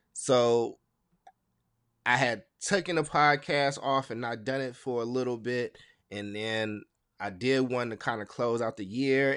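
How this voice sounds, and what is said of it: Voice sounds sick, recovering from illness. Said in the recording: “excuse my voice. It sound like I'm getting over something ... I don't like the way I sound”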